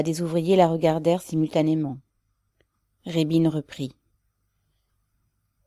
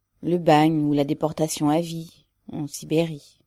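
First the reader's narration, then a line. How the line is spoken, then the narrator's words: Low voice. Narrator (French): répondit-elle à voix basse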